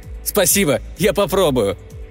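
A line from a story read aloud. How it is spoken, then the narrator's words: Shouted reply. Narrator (Russian): крикнул Алан в ответ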